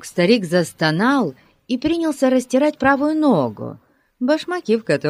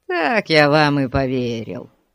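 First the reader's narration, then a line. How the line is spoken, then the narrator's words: Grumbling. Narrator (Russian): проворчал бродяга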